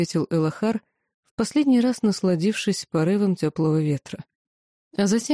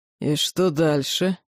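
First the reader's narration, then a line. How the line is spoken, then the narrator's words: Demon growling. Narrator (Russian): прорычал высший демон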